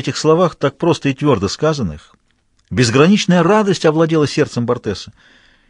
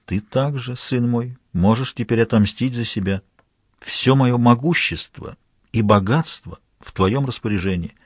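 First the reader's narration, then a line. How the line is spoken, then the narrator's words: Half-voiced. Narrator (Russian): Фо в полголоса сказал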